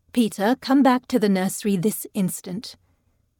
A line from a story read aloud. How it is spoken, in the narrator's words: called out softly in German